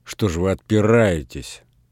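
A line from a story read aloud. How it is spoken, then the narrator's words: Angry. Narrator (Russian): сердито сказал Передонов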